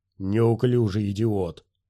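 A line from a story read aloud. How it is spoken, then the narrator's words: Snarling alien. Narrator (Russian): Посетитель, тагрианец, прорычав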